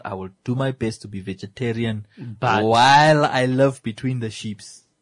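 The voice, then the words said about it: Put-on African accent. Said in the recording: “I had to put on my best African accent there”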